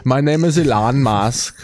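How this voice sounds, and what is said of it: Put-on vague global accent. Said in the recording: “It sounds like you should talk like this. ... He's got a weird global accent. ... Kind of talks like this. Very like he's got an accent, but it's not.”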